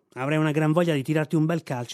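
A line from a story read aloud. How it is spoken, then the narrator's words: Plain. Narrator (Italian): disse Billy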